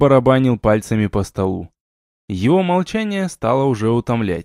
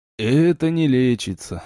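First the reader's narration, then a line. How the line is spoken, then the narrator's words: Sighing. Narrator (Russian): вздохнул живчик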